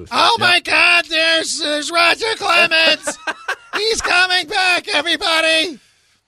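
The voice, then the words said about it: Imitates another person's voice. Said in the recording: “my Susan Waldman impression.”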